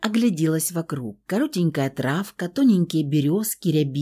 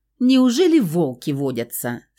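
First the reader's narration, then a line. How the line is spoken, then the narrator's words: Laughing question. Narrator (Russian): смеясь спросила я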